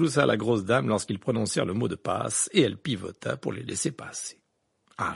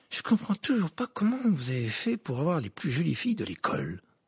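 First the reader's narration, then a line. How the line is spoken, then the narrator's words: Muttered. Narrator (French): marmonna Dean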